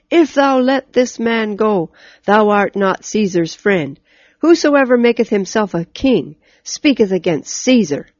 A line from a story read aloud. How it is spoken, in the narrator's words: the Jews cried out